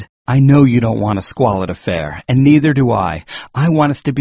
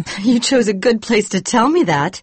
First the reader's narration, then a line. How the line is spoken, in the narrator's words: she said, laughing